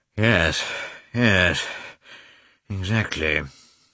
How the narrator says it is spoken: said Oblonsky, sighing

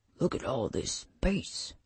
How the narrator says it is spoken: Marnes whispered

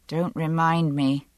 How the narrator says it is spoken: I said a little grimly

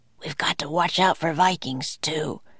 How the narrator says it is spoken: he whispered

